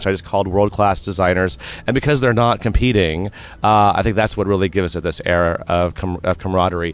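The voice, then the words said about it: Hoarse, worn-out voice. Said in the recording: “my voice is gone after this weekend”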